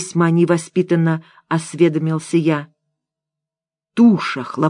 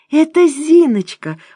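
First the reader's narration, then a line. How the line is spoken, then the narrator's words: Exclaiming. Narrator (Russian): воскликнула Муся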